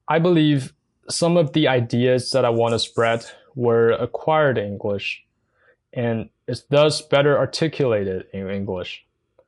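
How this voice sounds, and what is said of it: Mandarin Chinese accent in English. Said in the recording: “I'm speaking this weird second language, English ... my accent ... Mandarin Chinese, my native language”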